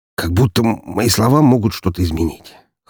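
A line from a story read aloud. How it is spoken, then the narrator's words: Hoarse, strained, sore throat. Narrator (Russian): хрипло выдавил я в ответ, потирая соднящее горло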